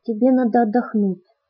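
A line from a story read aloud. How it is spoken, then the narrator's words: Soft. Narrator (Russian): мягко сказала я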